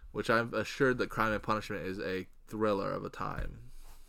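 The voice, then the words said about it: Heavily sarcastic tone. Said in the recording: “I'm being sarcastic. ... I'm being sarcastic. ... dripping with sarcasm”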